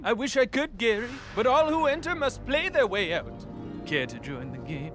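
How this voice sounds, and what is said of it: Theatrical trickster character voice. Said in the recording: “do that trickster voice”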